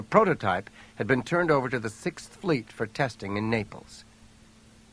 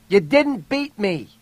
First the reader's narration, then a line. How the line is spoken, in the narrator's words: yelled in a strong voice